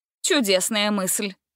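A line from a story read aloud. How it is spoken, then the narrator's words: Snorting. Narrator (Russian): фыркнула Гретель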